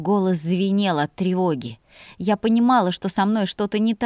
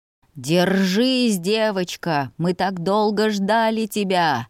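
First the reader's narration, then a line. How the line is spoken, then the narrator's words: Strange growling voice in head. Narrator (Russian): Прорычал чужой голос в моей голове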